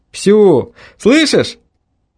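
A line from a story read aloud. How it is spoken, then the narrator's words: Shouting into phone. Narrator (Russian): прокричал я в трубку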